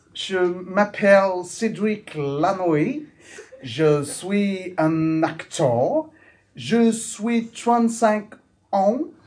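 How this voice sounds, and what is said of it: Put-on English-speaking accent in French. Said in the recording (French): “Avec un accent. Un accent anglo-saxon.”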